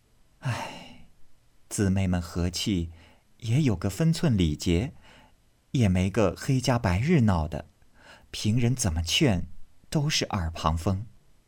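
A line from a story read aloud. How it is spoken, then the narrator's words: Sighing. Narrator (Chinese): 袭人叹道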